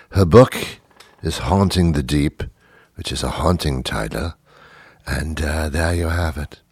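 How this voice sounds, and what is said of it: Put-on non-American accent. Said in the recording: “Me doing this this accent has become gracefully annoying for everybody... will be back with his regular American show”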